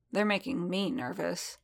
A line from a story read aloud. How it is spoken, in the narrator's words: Din muttered back